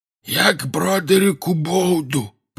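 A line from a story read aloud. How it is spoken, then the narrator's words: Hoarse wheeze. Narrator (Russian): просипел он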